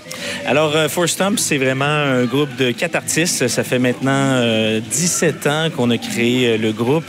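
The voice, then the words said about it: Québécois French accent. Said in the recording (French): “Je me croirais à ouais. Québec. ... Nous, on est dépaysés voilà. avec votre accent”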